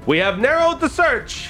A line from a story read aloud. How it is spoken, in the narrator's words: he says excitedly